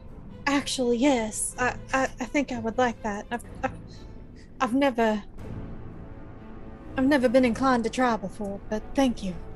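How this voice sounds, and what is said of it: Put-on accent. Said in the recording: “I guess I better put this accent back on.”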